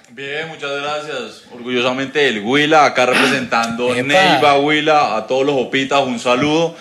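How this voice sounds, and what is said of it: Drawling, slow Colombian regional accent. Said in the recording (Spanish): “Le sale el acento. ... es muy parecido como al santandereano ... más arrastrado, más lento.”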